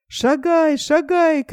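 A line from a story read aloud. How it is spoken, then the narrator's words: Shouting from above. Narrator (Russian): крикнул ему сверху Нильс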